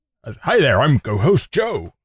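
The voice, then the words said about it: Put-on American accent, old-time actor. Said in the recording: “I'm co-host ... in an American accent ... You sounded like one of those older actors.”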